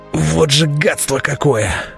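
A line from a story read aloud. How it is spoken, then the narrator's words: Hoarse, coughing wheeze. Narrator (Russian): Прохрипел я, сотрясаясь от накатившего на меня кашля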